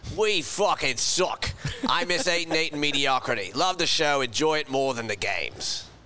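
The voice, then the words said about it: Put-on Australian accent. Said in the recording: “I think ... got to read this one in his accent. ... It fits the Australian profile.”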